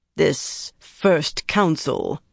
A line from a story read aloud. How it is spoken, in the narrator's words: Harina growled